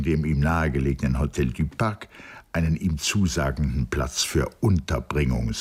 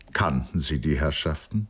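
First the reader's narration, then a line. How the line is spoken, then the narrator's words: Plain question. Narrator (German): fragte Gordon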